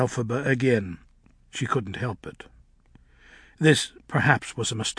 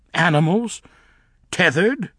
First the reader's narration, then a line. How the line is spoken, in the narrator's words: exclaimed Elfie, seething